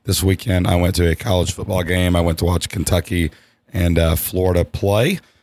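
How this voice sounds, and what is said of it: Hoarse, slightly lost voice. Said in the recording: “I'm a little hoarse today ... lost my voice a little bit”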